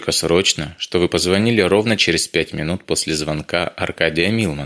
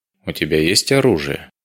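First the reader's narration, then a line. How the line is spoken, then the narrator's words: Gloomy question. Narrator (Russian): мрачно поинтересовался Вейдеманис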